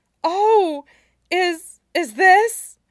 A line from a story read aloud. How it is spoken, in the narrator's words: Jiang Yan Li suddenly gasped